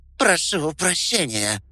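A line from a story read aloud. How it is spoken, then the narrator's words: Hoarse, strained. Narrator (Russian): прохрипела она, с трудом поднимаясь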